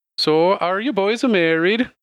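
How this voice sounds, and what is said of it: Put-on accent drifting toward Irish. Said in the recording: “I'm losing the accent already... Now it sounds a little bit more Irish... I knew it was going to go Irish”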